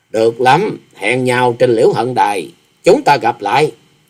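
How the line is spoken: Cold voice. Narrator (Vietnamese): Bằng một giọng lạnh lùng bà thốt

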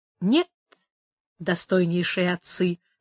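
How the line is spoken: Plain. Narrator (Russian): сказал он

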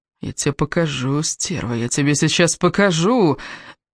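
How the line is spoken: Wheezing. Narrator (Russian): хрипел он

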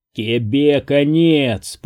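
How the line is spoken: Growl. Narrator (Russian): прорычал Джаклин

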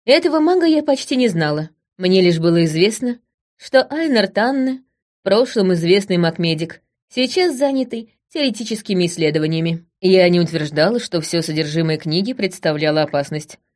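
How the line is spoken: Calm. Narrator (Russian): спокойно сказала я

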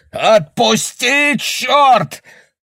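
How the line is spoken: Yelling. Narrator (Russian): орал Бэкман

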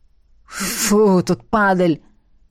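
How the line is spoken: Wheezing man's voice. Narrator (Russian): просипел один из мужчин

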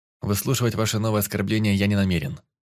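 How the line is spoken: Cold. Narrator (Russian): холодно сказал

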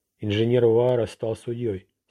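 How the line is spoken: Plain. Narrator (Russian): сказала девушка

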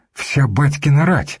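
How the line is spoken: Frightened question. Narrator (Russian): спросил испуганно Олег

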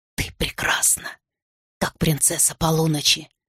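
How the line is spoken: Whisper in ear. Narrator (Russian): прошептал Арден мне на ухо

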